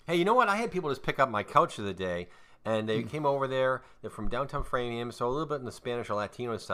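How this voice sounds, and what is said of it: Usual voice. Nothing is said of it.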